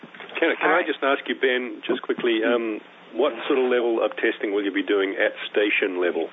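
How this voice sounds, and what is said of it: New Zealand accent. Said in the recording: “I'm the only one with a New Zealand accent... that that's your accent”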